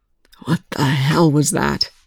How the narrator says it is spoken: Young rasped

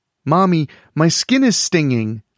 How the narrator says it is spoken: a little girl with auburn pigtails whined

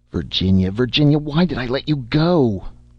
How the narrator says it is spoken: Charlie cried

